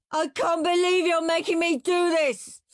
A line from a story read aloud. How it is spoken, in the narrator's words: screamed Henry